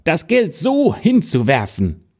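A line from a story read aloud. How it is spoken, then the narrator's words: Stepsister calling out. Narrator (German): rief die Stiefschwester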